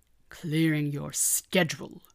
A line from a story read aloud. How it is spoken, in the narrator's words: Megatron growled